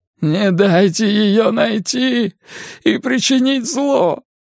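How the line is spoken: Pleading. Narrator (Russian): взмолился он

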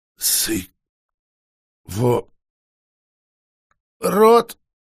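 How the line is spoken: Young girl groaning. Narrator (Russian): простонала юная вампирша

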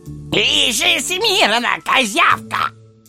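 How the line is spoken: Barking. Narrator (Russian): Рявкнул он

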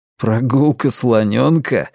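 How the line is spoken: Said, then laughed. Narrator (Russian): сказал Клай и засмеялся

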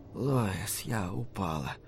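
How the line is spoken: Whisper. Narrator (Russian): прошептала она

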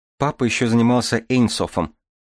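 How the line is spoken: Timid addition. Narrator (Russian): робко добавила Дарья

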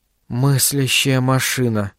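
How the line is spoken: Shocked whisper. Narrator (Russian): прошептала Айзеку потрясенная Дархан

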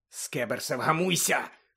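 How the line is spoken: Hissed. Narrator (Ukrainian): шипів Рон

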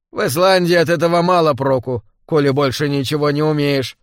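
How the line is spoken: Grumbling. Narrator (Russian): проворчал я

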